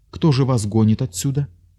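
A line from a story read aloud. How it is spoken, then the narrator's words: Indifferent, slightly thoughtful tone. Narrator (Russian): Фон Вульф продолжал тем же равнодушным тоном, несколько задумчиво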